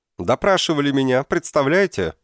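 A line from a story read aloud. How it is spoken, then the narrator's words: Shouted. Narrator (Russian): закричал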